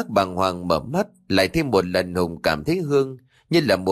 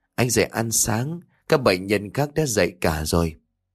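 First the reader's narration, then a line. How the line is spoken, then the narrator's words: Soft, gentle female voice. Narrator (Vietnamese): Tiếng nói nhỏ nhẹ của cô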